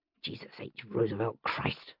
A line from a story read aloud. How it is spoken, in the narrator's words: I muttered